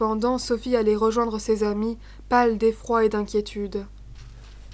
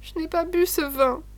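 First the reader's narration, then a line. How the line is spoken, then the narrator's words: Sobbing reply. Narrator (French): répondit Sophie en sanglotant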